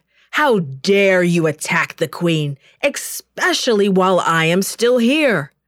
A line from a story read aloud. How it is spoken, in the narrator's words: roared